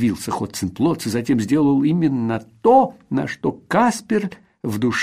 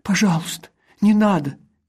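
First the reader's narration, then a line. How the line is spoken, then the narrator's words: Frightened. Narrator (Russian): испуганно произнес Сеппель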